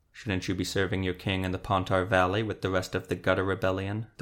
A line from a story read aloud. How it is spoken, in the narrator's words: the Witcher asked